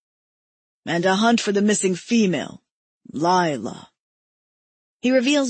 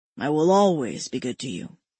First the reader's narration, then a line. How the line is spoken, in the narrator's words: he says solemnly